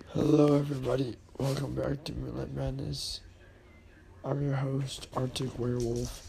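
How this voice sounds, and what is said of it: Hoarse, weakening voice. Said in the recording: “I'm losing my voice”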